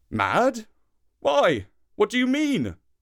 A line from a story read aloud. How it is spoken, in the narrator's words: cried Papa